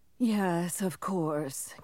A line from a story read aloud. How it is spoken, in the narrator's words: Kellering sighed